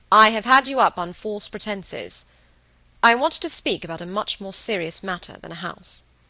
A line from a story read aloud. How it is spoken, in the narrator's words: his voice was firm